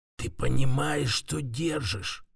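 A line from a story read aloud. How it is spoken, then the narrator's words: Voice breaking to whisper. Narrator (Russian): Его голос почти сорвался на шепот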